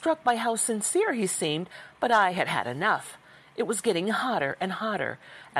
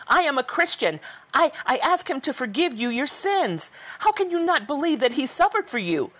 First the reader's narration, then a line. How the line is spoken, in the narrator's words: was screaming irrationally